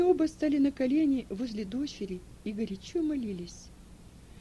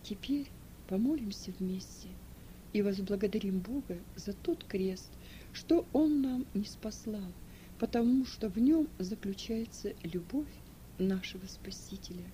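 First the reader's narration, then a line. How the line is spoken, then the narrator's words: Quiet speech. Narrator (Russian): он тихо сказал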